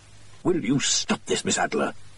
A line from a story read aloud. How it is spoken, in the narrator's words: hissed Holmes